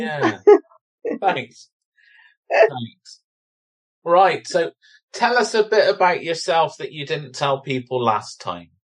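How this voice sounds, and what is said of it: Bristolian English accent. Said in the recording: “It's the Bristolian accent ... my Bristolian accent”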